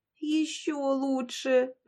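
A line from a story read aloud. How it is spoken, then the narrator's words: Whimper. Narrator (Russian): проскулила Яшка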